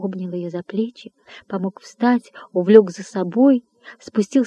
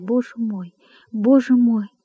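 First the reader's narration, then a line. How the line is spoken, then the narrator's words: Sobbing whisper. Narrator (Russian): Опять зарыдав, она прошептала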